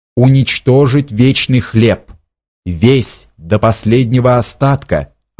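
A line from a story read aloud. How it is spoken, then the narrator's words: Plain. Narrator (Russian): ответил Роденшток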